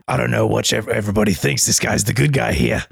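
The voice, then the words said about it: Imitates a game character's voice. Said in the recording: “Is that what Zaid sounds like? ... It is, kind of. ... not the best impersonation of all time, but he kind of sounds like that.”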